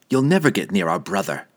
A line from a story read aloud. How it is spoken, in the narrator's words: Dinan replied sharply, his memories of his previous disastrous encounter with Drizzt still painfully clear